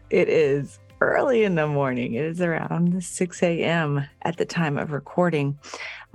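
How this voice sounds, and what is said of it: Low sexy early-morning radio voice. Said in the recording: “that like sexy radio voice”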